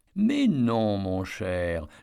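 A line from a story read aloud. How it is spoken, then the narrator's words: Softened voice. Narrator (French): répondit Ruby d'une voix radoucie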